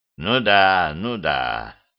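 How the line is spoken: Drawn-out drawl. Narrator (Russian): протянул он

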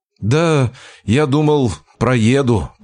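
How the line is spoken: Mumbling. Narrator (Russian): промямлил я

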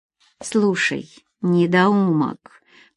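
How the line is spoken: Low hiss. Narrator (Russian): понизив голос, чтобы не привлекать ничего внимания, прошипела Нина

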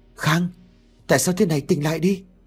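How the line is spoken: Stunned cry. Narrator (Vietnamese): Mình bàng hoàng kêu lên

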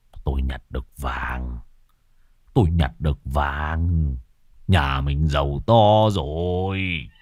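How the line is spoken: Excited hushed whisper. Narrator (Vietnamese): Ông Đăng khe khẽ nói chỉ đủ cho vợ nghe

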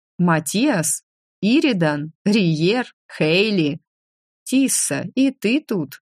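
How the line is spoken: Puzzled drawl. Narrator (Russian): Озадаченно протянул Иридан

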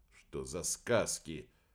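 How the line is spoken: Confused muttering. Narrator (Russian): пробормотал сбитый с толку Тареев

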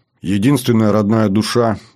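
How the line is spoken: Sad voice. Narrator (Russian): говорю я грустно

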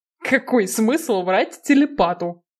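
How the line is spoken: Snorted. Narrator (Russian): фыркнул Киган

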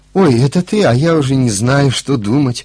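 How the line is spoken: Surprised and joyful. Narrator (Russian): проговорила и удивленно и радостно

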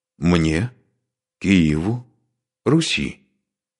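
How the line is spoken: Quiet. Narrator (Russian): Сказано было негромко

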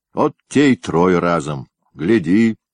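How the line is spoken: Grumbling with a smirk. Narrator (Russian): усмехнулся, проворчав

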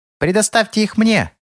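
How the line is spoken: Piercing shriek over noise. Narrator (Russian): завизжал лягушонок, покрывая своим пронзительным голосом даже эту суматоху

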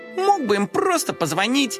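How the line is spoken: Smirking. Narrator (Russian): хмыкнул Коржик

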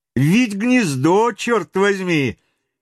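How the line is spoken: Cheerful reply. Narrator (Russian): весело отозвался Паганель

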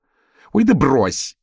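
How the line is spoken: Bark. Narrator (Russian): рявкнула Битси

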